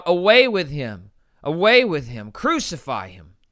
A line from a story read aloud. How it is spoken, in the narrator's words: they cried out